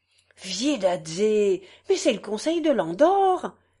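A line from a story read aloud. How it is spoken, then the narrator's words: Innkeeper exclaiming. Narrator (French): s'exclama l'aubergiste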